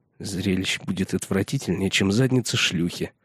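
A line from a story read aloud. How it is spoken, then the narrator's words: Muttered. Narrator (Russian): пробормотал Пип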